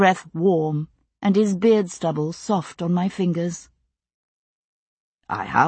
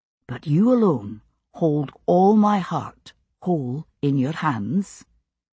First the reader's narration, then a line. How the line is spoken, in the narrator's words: he said softly